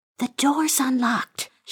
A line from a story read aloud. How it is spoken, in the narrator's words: she whispered to Jordan